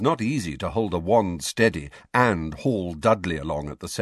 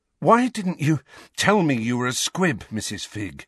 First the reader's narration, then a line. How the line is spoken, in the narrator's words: asked Harry, panting with the effort to keep walking